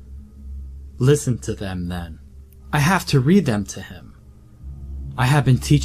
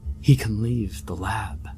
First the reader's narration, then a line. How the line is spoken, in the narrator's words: he muttered